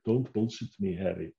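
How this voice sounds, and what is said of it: Austrian-accented impression of another person. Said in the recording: “I can't do any other German accent, but I can do Arnold Schwarzenegger ... he's not even German. He's Austrian ... That's pretty good, isn't it?”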